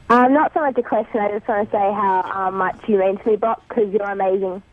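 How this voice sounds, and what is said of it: Australian accent. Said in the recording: “I love the accent, but I didn't understand any of that. ... I love Australian accents.”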